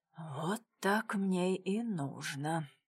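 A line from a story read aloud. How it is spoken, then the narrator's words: Quiet. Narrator (Russian): негромко сказал он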